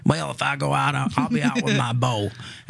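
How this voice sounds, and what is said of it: Put-on Southern accent. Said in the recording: “he's from the South. That's the Southern accent.”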